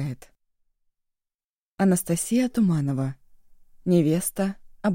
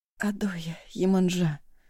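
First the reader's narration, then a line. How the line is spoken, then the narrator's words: Restless sleep-mumbling. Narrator (Russian): бормотал во сне Роки Мадейра, беспокойно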